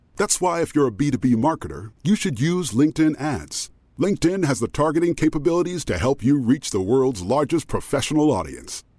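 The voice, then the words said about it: Very deep voice. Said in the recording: “As a person with a very deep voice”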